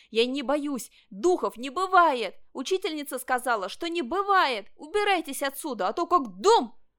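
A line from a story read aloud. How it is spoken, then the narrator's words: Shouting. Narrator (Russian): Ванчо кричал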